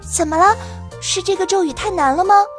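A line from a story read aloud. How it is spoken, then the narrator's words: Quiet question. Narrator (Chinese): 糖糖小声问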